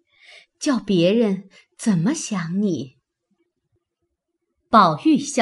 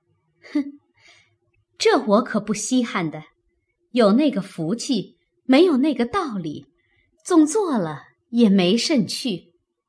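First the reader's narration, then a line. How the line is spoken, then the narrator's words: Cold sneer. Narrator (Chinese): 袭人冷笑道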